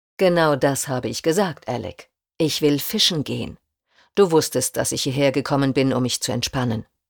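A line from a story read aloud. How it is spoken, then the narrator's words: Growled. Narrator (German): knurrte er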